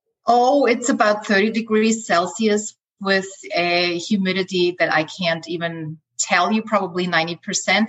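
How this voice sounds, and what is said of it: Austrian accent. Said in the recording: “I am originally from Austria, hence, you hear my accent. I love your accent, it's so beautiful.”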